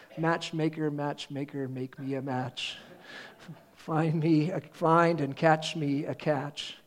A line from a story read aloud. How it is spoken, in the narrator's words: this old Jewish woman singing under her breath